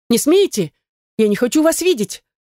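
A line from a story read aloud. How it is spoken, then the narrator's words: Frightened scream. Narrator (Russian): Закричала испуганно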